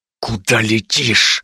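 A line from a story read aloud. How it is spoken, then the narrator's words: Hissing in ear. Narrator (Russian): зашипел он мне в самое ухо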